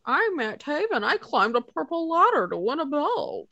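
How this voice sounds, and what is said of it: Imitates another person's voice. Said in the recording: “a very good impression ... Spot on.”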